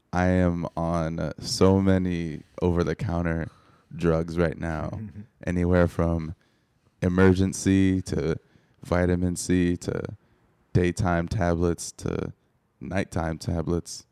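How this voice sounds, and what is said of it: Hoarse, sick-sounding voice. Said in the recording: “you hear some little hoarse in my voice, I am indeed under the weather ... I do sound bad”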